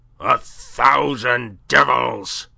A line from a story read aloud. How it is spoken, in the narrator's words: he roared